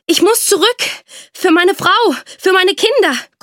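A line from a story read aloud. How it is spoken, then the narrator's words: Panting, straining. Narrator (German): keuchte er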